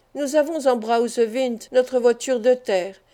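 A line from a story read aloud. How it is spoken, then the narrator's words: Exclaimed. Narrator (French): s'écria Fritz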